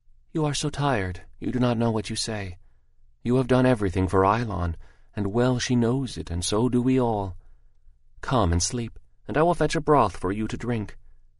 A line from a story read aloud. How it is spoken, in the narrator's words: Mei Ling said soothingly